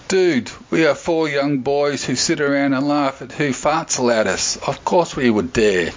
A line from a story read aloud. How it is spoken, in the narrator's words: Cameron laughed and said